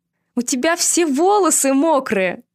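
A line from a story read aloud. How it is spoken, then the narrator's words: Loud laughter. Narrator (Russian): громко рассмеялась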